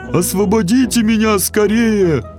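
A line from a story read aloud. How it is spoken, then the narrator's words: Pharaoh's plaintive moan. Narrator (Russian): жалобно простонал фараон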